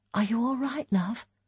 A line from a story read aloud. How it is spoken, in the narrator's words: Elaine asked quietly